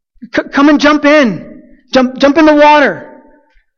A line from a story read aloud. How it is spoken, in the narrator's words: we were yelling at my younger cousin